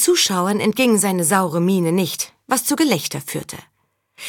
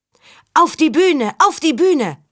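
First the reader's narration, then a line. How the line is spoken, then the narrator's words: Crowd calling out. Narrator (German): rief das Publikum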